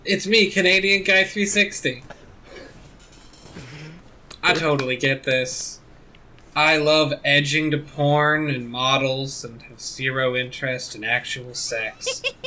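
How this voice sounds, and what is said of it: Put-on Canadian accent. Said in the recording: “I'll try to do a Canadian voice.”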